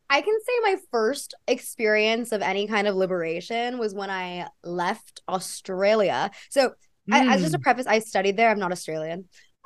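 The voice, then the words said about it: Noticeable Australian-tinged accent. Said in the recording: “nice accent.”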